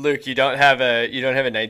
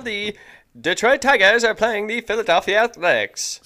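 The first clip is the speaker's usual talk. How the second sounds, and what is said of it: Old-time 1912 radio announcer voice. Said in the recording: “1912 radio voice”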